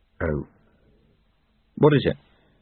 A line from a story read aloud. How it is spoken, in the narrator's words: said quietly